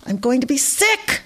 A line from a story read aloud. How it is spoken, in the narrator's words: Dana shouted